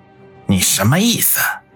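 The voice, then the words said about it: Hoarse rasping character voice. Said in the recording (Chinese): “用沙哑的声音说道”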